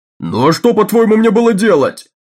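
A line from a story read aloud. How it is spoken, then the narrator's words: Shouted. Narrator (Russian): закричал Такерт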